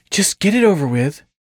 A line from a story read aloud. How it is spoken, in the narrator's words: she sighed